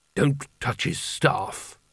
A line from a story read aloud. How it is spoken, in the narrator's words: muttered Carding